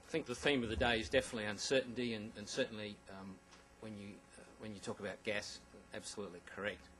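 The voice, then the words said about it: Australian accent. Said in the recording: “you have an Australian following him up with all the vicissitudes of an accent”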